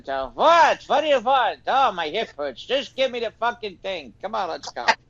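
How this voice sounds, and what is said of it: Put-on old Jewish man accent. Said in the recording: “I've got the old Jewish guy accent.”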